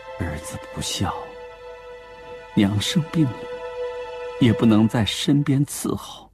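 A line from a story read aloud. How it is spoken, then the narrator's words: Heavy sigh. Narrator (Chinese): 张富清重重地叹了一口气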